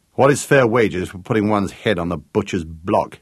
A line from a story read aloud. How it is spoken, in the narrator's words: Gareth asked bitterly